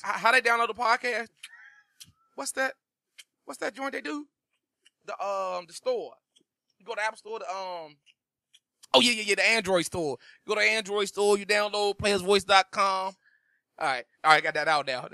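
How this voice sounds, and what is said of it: Impersonation of a co-host's voice. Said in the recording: “my MG impersonation”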